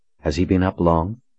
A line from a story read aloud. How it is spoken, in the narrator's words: Colin asked Raina